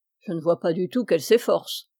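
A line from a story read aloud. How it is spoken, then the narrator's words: Priest grumbling. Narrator (French): grommela le curé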